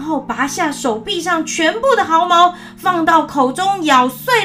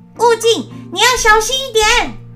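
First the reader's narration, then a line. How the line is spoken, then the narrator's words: Hurried call. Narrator (Chinese): 他急忙叫住沙僧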